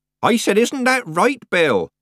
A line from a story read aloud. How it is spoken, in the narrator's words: Nanny repeated, raising her voice